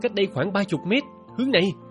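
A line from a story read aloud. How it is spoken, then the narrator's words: Prompt plain. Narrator (Vietnamese): tôi đã nói ngay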